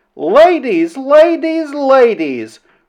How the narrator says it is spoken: repeating the word three times and raising her voice each time

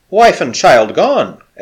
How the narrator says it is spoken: exclaimed O'Keefe

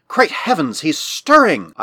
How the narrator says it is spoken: gasped

